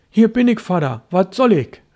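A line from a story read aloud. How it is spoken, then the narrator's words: Called out. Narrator (German): rief Störtebeker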